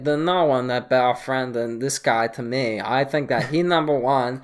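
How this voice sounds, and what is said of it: Tommy-style accent. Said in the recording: “I can't understand the accent. Is that Tommy accent?”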